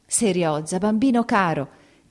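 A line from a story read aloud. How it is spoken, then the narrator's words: Choked, emotional exclamation. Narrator (Italian): ella esclamò, soffocando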